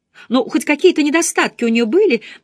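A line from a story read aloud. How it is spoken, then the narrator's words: Laughing. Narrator (Russian): засмеялась Хитер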